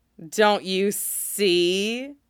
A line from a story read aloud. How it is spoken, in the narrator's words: he taunts